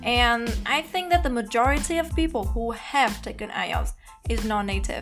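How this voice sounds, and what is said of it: Non-native English accent. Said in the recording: “As you can see from my accent, I am not a native speaker.”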